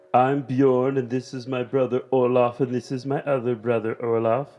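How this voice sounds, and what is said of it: Vague put-on Northern European accent. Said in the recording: “I have no idea what kind of accent that was supposed to be. Northern European, I'm guessing, possibly, ... Prussian? Like, it's weird Swedish-German-French combo?”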